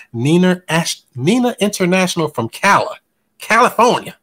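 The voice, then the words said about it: Southern drawl. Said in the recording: “I put a southern drawl on California.”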